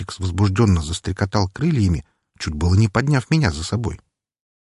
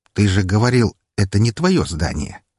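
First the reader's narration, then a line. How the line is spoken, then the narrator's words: Wry smirking scoff. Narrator (Russian): хмыкнул с кривой ухмылкой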